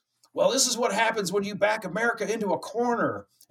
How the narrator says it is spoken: this dude yells

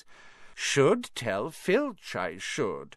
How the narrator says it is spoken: said Peeves in a saintly voice

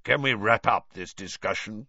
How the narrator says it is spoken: growled Moody

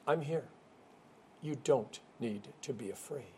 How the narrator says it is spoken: He gently but firmly proclaims

